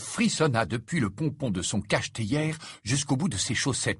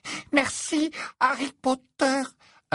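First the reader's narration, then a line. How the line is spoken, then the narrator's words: Panting. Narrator (French): haleta-t-il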